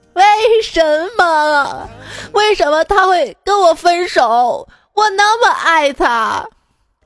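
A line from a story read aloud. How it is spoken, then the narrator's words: Crying wail. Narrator (Chinese): 哥们儿一边哭一边对我哀嚎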